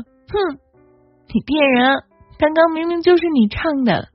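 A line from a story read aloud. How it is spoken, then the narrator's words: Smiling. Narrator (Chinese): 兔子笑着说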